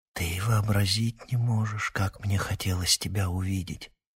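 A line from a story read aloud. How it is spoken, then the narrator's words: Barely audible whisper. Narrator (Russian): шепчет Пьетер так тихо, что я сомневаюсь, не померещилось ли мне это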